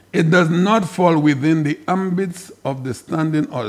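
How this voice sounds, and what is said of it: Reading very slowly. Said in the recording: “read this very slowly”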